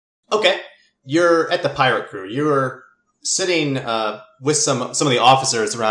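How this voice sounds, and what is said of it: Usual voice. Nothing is said of it.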